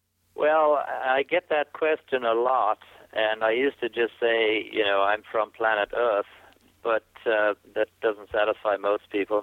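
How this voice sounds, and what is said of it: Unique, hard-to-place accent. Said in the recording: “you have a unique accent. I don't know if folks can pick this up, but they can't help but notice your accent.”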